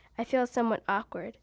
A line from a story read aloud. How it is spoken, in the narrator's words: I said in a rather apologizing tone